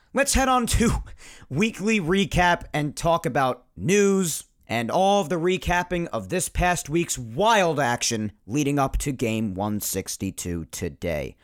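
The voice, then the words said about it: Raspy voice. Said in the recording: “my raspy voice”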